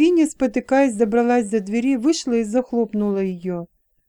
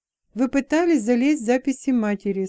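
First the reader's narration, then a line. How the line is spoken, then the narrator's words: Calm. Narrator (Russian): спокойно сказал он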